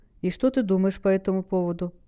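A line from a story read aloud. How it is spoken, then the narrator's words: Gently asked. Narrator (Russian): мягко спросил Стилет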